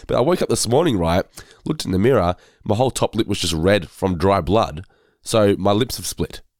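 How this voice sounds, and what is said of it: Hoarse, sick-sounding voice. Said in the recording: “if I sound under the weather ... I just lose my voice because my throat is knackered from all the coughing”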